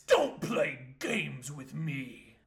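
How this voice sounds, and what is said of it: Deep put-on character voice. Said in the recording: “Switches into a deep voice.”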